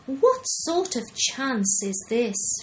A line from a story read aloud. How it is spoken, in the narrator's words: exclaimed